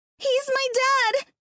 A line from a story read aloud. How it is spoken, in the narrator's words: Terry cried